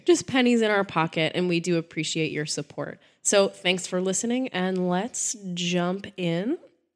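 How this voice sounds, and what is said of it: Voice sounds off from a cold. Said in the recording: “I am fighting a cold this week, so that's my why my voice sounds a little bit weird”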